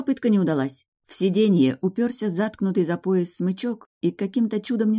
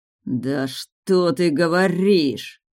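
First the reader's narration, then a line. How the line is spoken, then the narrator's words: Growling werewolf. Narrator (Russian): зарычал оборотень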